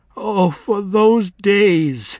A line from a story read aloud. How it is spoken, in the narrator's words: she wailed